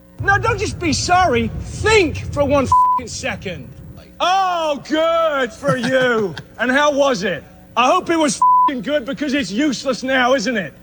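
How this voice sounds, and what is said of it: Foreign accent. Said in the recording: “He has a foreign accent.”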